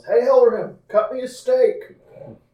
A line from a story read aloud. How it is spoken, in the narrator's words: Asir yells